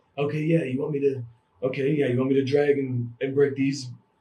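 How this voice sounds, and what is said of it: Imitates another person's voice. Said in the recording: “That's a pretty good Nicolas Cage. That's good Nicolas Cage. ... that's a good Nicolas Cage accent.”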